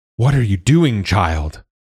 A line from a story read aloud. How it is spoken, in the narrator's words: Queen Usai cried